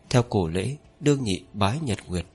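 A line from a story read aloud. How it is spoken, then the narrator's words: Soft voice. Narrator (Vietnamese): Linh Phượng nhẹ giọng mở lời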